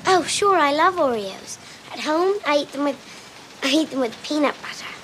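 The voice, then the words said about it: Young girl's attempted English accent. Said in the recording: “That's a young Lindsay Lohan doing her best at an English accent.”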